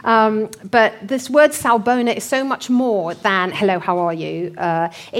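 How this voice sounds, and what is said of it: English accent from North Hertfordshire. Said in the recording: “my North Hertfordshire accent”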